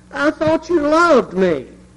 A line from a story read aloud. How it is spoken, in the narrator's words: wailed